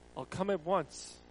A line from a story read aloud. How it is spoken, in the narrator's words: Jesus said